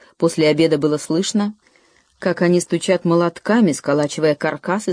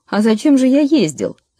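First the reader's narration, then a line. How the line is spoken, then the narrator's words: Laughing. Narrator (Russian): засмеялся папа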